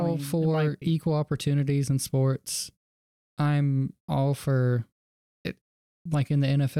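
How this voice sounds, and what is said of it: Usual voice. Nothing is said of it.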